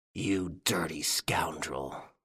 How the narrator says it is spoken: Ganimard snarled between his teeth

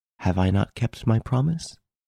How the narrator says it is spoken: He repeated in a calm, soft voice

